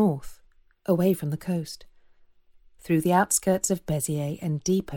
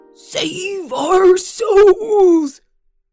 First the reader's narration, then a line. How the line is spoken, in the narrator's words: bellowed the flesh lump eater